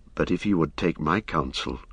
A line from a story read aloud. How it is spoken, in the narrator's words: said Éomer in a low voice